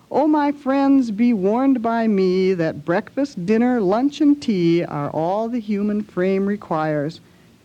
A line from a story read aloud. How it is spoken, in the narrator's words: Henry, with his latest breath, cried